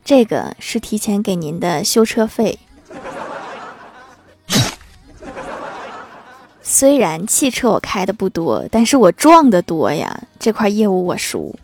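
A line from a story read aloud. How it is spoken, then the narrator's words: Sighing. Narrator (Chinese): 我老爸叹了一口气说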